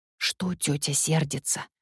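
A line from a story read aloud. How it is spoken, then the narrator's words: Whisper after someone. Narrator (Russian): прошептала Шуша вслед удаляющейся Миле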